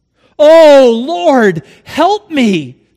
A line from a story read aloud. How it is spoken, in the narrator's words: cried